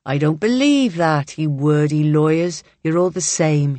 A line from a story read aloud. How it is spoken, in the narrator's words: he drawls